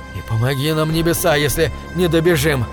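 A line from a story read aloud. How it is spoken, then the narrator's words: Groaning. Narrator (Russian): застонал Говард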